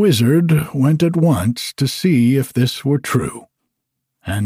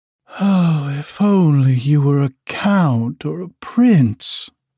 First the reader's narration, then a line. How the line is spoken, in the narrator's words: she sighed